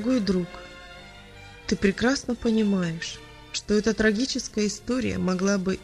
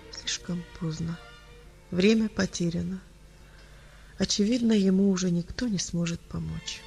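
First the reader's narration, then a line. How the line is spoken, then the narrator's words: Quiet. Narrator (Russian): тихо произнес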